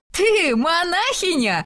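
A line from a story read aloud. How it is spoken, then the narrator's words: Bursting into laughter. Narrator (Russian): расхохоталась Сесилия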